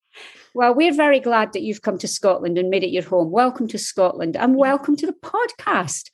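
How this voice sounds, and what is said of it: Scottish accent. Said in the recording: “I do book tours in Scotland and all I have to do is open my mouth and people buy the books... Americans love that accent.”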